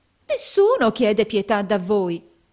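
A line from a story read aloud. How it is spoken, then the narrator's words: Warm old man's exclamation. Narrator (Italian): esclamò calorosamente il vecchio mercante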